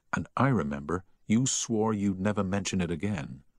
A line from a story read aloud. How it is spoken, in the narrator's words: whispered Harry